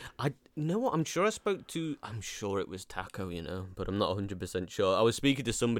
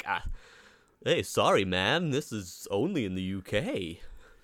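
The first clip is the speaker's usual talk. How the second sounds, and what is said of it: Poor American accent impression. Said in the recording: “That's the worst American accent ever.”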